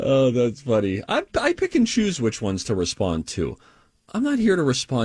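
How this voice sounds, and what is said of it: Usual voice. Nothing is said of it.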